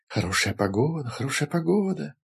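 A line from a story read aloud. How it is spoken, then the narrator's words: Echoing whisper. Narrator (Russian): зашептала по всему ущелью эхо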